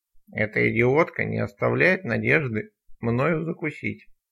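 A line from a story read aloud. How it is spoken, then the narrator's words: Grumble. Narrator (Russian): проворчал Изя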